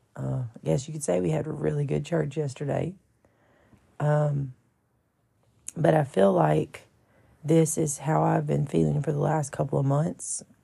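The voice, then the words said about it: Hoarse, partly lost voice. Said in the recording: “My voice is a little bit gone.”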